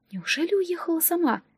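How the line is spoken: Whisper. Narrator (Russian): послышался шепот

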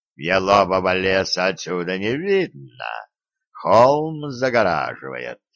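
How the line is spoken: Water spirit's deep bass. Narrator (Russian): пробасил водяной

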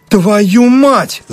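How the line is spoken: Yelling. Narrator (Russian): заорал Даль

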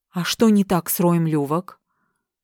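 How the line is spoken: Sighing again. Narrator (Russian): Рипли снова вздохнул

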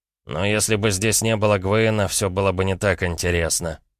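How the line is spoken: Amused snort. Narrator (Russian): хмыкнул Андрей

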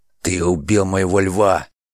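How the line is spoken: Growl. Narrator (Russian): прорычал он

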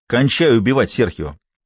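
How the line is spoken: Barking. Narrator (Russian): рявкнул Фалькон

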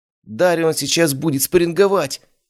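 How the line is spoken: Exclaiming. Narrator (Russian): воскликнул кто-то

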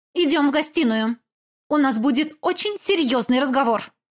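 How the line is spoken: Sharp declaration. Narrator (Russian): она резко заявила

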